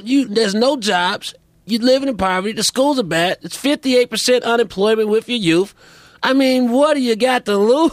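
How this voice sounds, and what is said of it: Imitates another person's voice. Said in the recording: “That's a pretty good impression. It's not bad. I know exactly who you're doing.”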